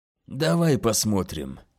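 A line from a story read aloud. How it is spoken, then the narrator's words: Grunting mutter. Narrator (Russian): пробормотал бучер, кряхтя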